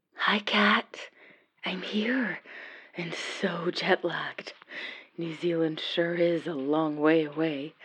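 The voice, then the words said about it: Whispering. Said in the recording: “Sorry about the whispering.”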